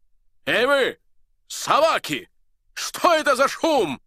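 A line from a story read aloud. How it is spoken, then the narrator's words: Thunderous, angry shout. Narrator (Russian): Закричал он громовым голосом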